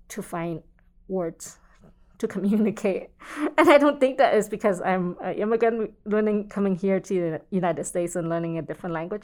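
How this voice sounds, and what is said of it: Non-native accented English. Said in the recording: “speaking with an accent”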